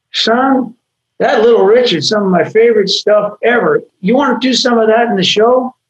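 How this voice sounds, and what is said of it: Put-on Arkansas accent. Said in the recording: “I'm trying to do an Arkansas accent, but sorry. ... Not bad.”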